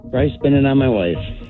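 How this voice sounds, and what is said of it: Defeated, deflated tone. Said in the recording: “You sound so defeated, man.”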